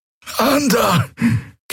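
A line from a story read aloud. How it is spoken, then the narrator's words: Croaky loudspeaker voice. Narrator (German): krächzte eine Stimme aus den Lautsprechern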